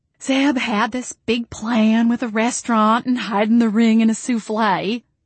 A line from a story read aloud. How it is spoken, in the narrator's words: Jolene said, smiling dreamily